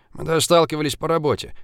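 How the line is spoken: Snorting remark. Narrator (Russian): хмыкнул Зыбин

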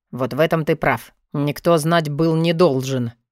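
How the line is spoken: Gloomy reply. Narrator (Russian): мрачно ответил Вёлвинд

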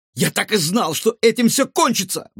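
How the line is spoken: Father exclaiming. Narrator (Russian): воскликнул папа мальчика

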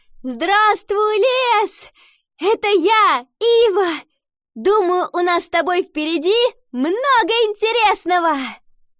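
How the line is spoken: Shout. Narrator (Russian): она крикнула

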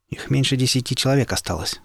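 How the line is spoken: Plain. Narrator (Russian): сказал я

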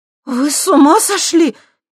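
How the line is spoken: Frightened shout. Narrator (Russian): испуганно крикнула она

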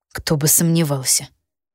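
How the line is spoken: Through clenched teeth. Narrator (Russian): процедил он сквозь зубы

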